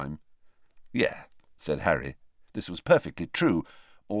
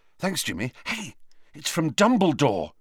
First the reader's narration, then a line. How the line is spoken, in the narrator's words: said Harry excitedly